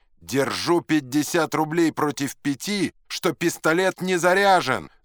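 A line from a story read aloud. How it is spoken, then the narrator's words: Shouted. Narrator (Russian): закричал третий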